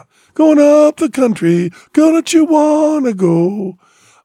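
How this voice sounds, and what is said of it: Broken falsetto blues singing. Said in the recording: “The broken falsetto... he's doing an impersonation of Son House, the old blues guy”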